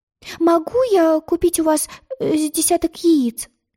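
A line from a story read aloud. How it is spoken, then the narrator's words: Timid babbling. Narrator (Russian): робко пролепетала она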